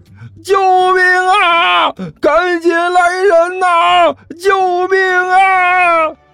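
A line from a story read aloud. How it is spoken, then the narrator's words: Shouting for help. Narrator (Chinese): 这货真敢喊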